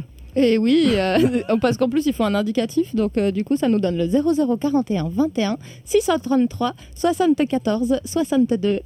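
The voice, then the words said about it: Slight southern French accent. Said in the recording (French): “Avec un petit accent du Sud.”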